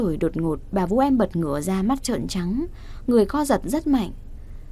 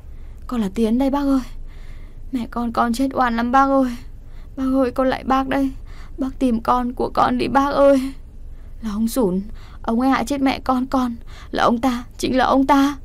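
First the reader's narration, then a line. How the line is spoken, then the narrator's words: Sobbing plea. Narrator (Vietnamese): chị Vũ khóc lóc rưng rằng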